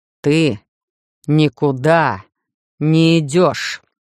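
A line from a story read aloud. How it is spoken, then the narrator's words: Angry, through clenched teeth. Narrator (Russian): зло процедил Хайт снова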